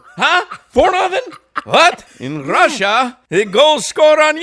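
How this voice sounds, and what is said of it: Put-on foreign accent. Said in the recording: “I liked your accent, though.”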